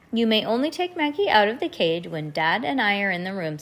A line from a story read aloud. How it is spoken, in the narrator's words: said Mom